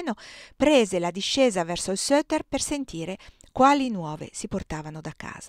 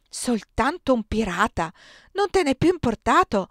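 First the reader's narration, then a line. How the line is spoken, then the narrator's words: Exclaimed. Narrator (Italian): esclamò Frolich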